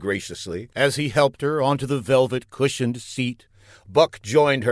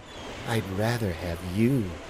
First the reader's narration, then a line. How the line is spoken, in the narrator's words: cooed Marcia